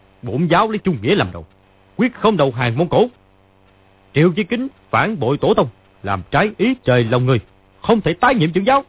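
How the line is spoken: Shouting. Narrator (Vietnamese): Lý Chí Thường quát lên

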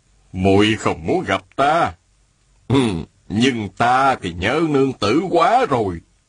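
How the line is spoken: Smiling. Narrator (Vietnamese): An đại nhân mỉm cười, y nói

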